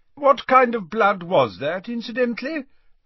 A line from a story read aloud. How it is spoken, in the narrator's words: asked Dumbledore loudly, over the chiming of the newly unsmashed grandfather clock